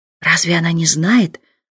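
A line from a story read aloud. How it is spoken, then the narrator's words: Whisper. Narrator (Russian): шепот поденщицы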